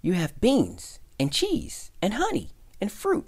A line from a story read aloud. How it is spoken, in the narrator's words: cried the country mouse